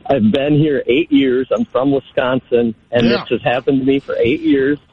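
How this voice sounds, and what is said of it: Northern US Wisconsin accent. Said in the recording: “my northern accent”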